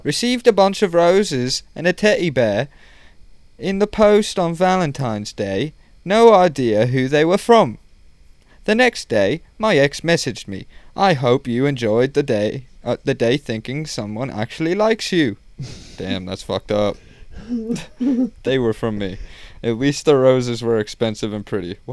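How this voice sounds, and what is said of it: Put-on British accent. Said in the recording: “In the post. This is like British. ... I'll read it in an accent.”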